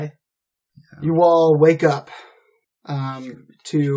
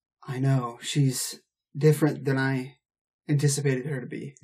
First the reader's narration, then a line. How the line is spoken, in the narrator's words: he goes in a hushed tone and says